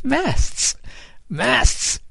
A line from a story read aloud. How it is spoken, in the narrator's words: Kid cried, and he too burst out laughing